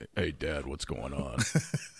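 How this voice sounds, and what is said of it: Deep voice imitating another person. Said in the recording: “a little deep ... his voice is deeper than mine”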